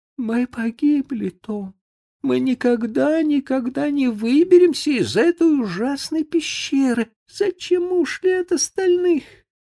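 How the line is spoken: Sobbing. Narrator (Russian): Бекки зарыдала

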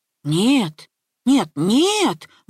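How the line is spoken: Father exclaiming. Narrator (Russian): воскликнул папа

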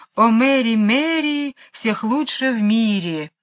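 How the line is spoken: Cheerful singing. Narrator (Russian): пингвина весело распевая эту странную песню

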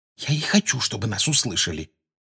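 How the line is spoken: Quiet. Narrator (Russian): тихо отозвалась Гермиона

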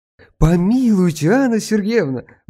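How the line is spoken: Exclaiming. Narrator (Russian): воскликнул Аркадий

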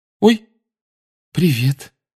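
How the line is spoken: Frightened reply. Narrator (Russian): испуганно отозвалась она

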